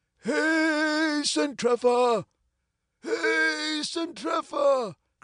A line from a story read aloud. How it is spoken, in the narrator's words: cried he in a hoarse voice